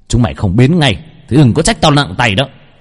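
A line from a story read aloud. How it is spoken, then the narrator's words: Shouting. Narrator (Vietnamese): Gã hét lên một tiếng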